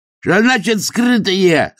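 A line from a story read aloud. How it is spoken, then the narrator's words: Prisoner howling, writhing. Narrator (Russian): завопил, извиваясь, арестант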